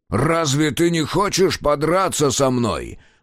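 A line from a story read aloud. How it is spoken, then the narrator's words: Growled. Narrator (Russian): прорычал Мюррей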